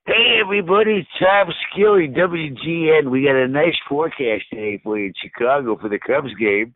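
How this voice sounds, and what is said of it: Imitates another person's voice. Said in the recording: “I do your impression of you.”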